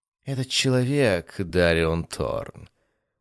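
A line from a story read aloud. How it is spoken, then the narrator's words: Melodious, otherworldly goddess. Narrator (Russian): богиня говорила певучим голосом, в котором слышались отголоски потусторонних миров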